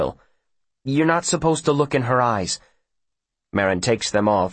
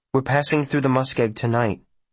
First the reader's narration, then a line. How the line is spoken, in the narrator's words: Will says uneasily, remembering the postmaster's comment